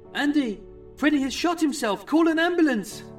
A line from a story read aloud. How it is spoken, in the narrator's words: Chrissy cried